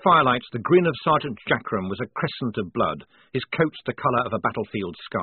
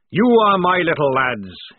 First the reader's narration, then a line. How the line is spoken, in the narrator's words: he roared